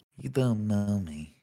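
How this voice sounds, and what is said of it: Imitates another person's voice. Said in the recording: “my Liam Neeson impression”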